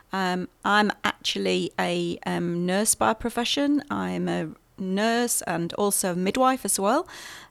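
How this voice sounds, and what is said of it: British accent. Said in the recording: “You'll hear from my accent, I'm from the UK originally.”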